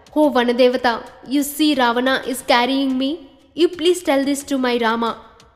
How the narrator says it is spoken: She cried out

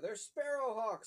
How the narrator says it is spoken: Uncle Pete yelled

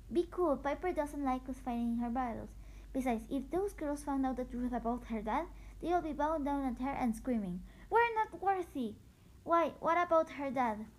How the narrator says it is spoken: laughed in disbelief

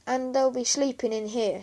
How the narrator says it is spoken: said Mum

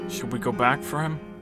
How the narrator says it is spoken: Jen said meekly

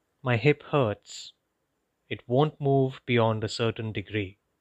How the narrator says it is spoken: Lisa retorted calmly

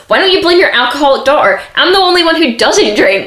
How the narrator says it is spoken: Kim gets upset because Kris is shouting at her and she's like

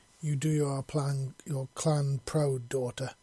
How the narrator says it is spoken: she said

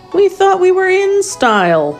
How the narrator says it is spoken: Woody moaned

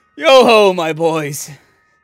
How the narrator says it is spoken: said Fezziwig

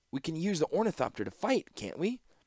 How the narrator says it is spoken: said the youth, sputtering

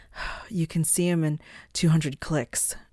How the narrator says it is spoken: Shal said through gasps of air

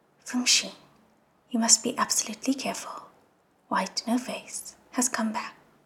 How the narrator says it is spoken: Xielian didn't have the mind to be courteous anymore and whispered

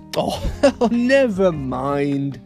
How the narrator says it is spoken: she laughed

